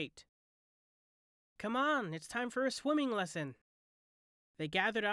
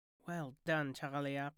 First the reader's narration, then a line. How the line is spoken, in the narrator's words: murmured Dunkirk to the baby